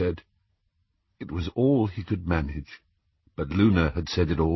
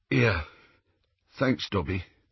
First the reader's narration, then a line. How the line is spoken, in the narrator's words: Ron, who cleared his throat and said in a thick voice